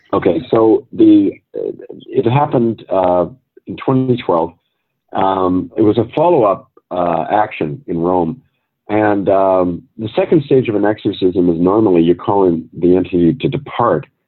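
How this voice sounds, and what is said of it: Strained, lower-quality voice. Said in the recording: “I'm just recovered from an asthma attack, so you might hear it in my voice... I noticed... the quality is a bit less because of that”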